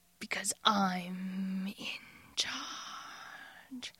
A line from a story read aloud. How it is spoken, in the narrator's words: he snarls